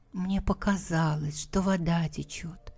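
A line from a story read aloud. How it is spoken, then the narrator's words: Timid excuse. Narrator (Russian): Робко оправдывается Костя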